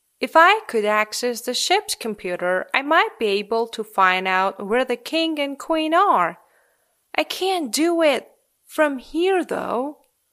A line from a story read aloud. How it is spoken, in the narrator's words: he said